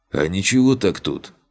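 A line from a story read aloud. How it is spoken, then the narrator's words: Skeptical snort. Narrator (Russian): хмыкнул он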